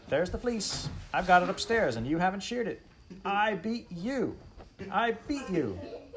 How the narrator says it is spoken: Almanzo shouted

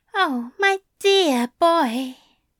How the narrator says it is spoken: he purred

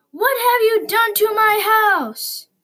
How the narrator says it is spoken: Bob yelled

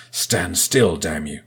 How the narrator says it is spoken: Sifo growled over comms

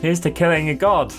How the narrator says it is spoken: James declares triumphantly

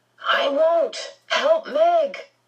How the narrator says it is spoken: Calvin yelled back

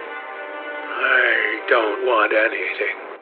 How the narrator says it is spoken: murmured the young man

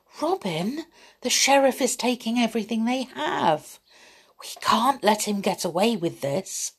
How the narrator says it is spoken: Little John whispered

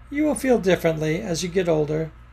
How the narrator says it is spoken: Mama laughed at her and said

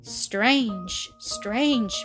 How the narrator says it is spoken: muttered the man thoughtfully

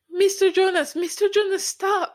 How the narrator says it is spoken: Micah cried

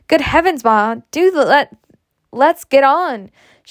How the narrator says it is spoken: cried impatiently

